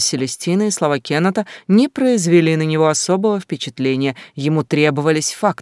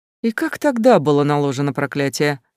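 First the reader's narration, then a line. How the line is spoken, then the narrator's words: Skeptical snort. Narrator (Russian): скептически фыркнул господин Бонд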